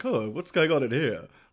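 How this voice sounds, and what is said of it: Imitates another person's voice. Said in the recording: “That was a good Roger Moore impression.”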